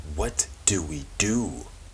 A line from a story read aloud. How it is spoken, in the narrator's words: Tressa whispered